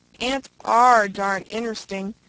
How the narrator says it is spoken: exclaimed Mary, glad to escape the shadowy piper's thrall

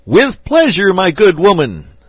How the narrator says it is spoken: said the archbishop, stooping to shout in her ear

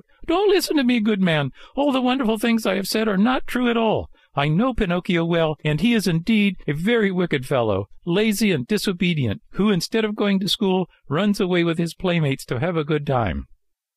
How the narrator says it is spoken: Scared out of his wits, he cried out

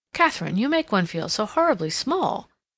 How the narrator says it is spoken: Cassandra exclaimed

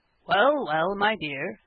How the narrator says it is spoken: said her father, with a quiet laugh

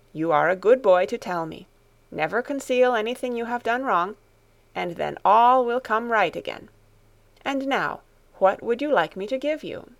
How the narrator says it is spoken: Grandmamma ... answered kindly

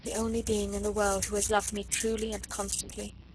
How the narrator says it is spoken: Her eyes at last grew moist as she murmured half to herself

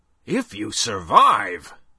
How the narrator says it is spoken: Both cried

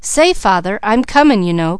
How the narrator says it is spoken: cried Junior

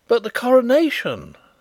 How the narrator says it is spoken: I cried in horror

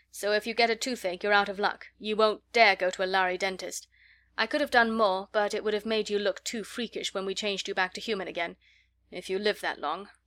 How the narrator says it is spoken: he added grimly

